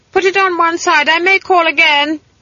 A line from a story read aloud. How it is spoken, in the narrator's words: she shouted